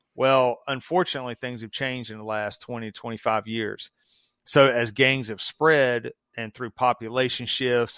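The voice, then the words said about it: Southern US accent. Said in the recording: “obviously you can hear my accent. I'm in the South.”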